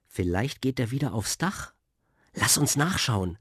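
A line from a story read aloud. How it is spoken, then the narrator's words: Plain. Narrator (German): sagte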